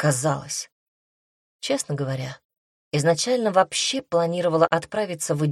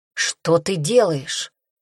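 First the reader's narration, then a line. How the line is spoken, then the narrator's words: Hoarse, with growling undertones. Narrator (Russian): спросил сипло с нотками прорывающегося рычания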